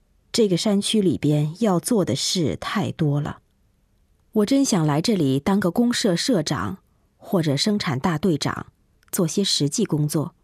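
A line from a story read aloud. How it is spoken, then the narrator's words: Sighing. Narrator (Chinese): 他叹息着说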